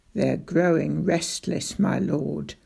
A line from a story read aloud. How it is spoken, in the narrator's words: muttered Roach